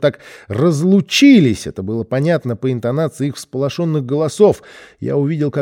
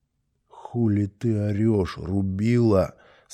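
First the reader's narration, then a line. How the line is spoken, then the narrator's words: Angry whisper. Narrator (Russian): спросил братик злым шепотом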